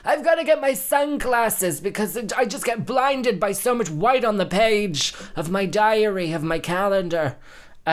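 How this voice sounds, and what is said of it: Imitates another person's voice, not very well. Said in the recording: “I'll do my Joan Rivers impression. ... That wasn't a very good Joan Rivers”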